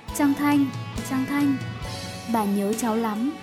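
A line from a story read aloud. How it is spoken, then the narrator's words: Old woman's tender whisper. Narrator (Vietnamese): Bà thì thầm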